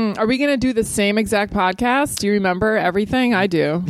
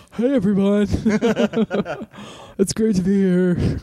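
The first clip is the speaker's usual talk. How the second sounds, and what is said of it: Imitates another person's voice. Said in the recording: “That's my Dan impersonation.”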